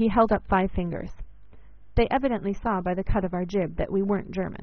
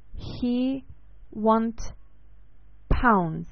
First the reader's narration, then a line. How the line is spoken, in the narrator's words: one said very slowly